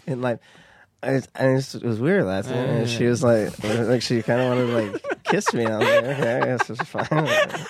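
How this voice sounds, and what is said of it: Imitates another person's voice. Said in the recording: “you're good at Nick Viall ... let me hear some Nick”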